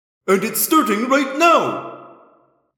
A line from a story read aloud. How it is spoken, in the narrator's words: Sofar cried